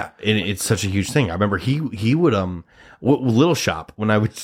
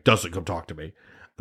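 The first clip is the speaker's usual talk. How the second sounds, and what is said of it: Imitates another person's voice. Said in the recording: “That's my Jack impression. ... Probably better one if I really try to think about it.”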